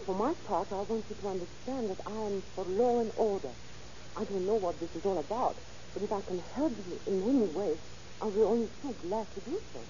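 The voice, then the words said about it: French accent. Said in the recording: “you have an accent. Are you a foreigner? ... My accent is French.”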